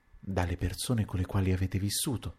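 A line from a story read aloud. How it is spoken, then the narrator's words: Hesitant, low repetition. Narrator (Italian): Il conte esitò un istante, poi ripeté a voce bassa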